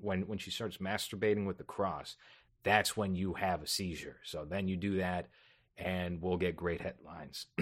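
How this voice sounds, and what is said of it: Raspy voice. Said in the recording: “I'm very raspy today.”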